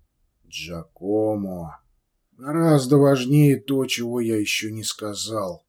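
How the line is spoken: Gentle reply. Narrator (Russian): мягко ответил сыну Александр

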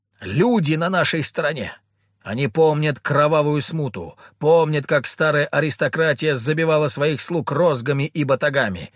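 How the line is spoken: Frenzied orator shouting. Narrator (Russian): кричал оратор, вошедший в раж

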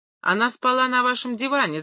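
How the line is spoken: Shouting. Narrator (Russian): закричал я

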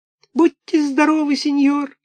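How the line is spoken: Sobbing. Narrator (Russian): всхлипнул Буратино

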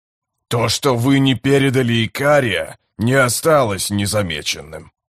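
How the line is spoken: Grumbling. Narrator (Russian): Скрипач заворчал

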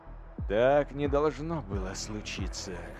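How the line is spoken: Sighed. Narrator (Russian): вздохнул

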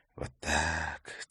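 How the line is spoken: Soft whisper. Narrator (Russian): тихо прошептал он

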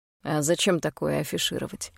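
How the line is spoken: Scoffing. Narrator (Russian): хмыкнул Хайд

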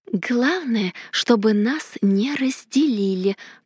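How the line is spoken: Whispered. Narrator (Russian): прошептала я

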